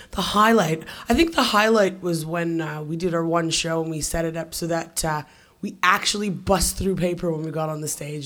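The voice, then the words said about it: Hoarse, strained voice. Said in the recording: “I think I sound a little bit like, you want fries with that? My voice is going a little bit”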